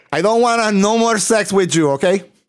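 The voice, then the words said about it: Put-on Puerto Rican Spanish accent. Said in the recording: “I don't know how to do a Portuguese accent ... Just do a Spanish accent ... Your Puerto Rican accent, similar.”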